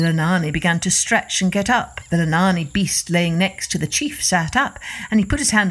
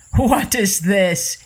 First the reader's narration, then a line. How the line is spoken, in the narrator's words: he began to laugh